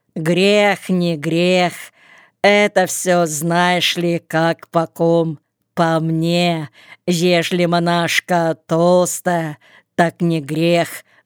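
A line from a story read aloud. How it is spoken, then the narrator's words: Plain. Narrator (Russian): сказала Фоня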